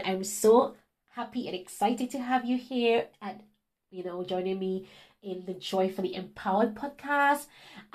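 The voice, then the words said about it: Unusual foreign-sounding accent. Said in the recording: “this weird accent, where it's from”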